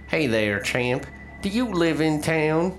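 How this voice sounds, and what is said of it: Heavy southern drawl. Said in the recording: “He asks in a heavy southern drawl.”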